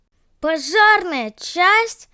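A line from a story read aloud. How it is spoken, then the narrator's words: Surprised shout. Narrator (Russian): закричала от удивления Айла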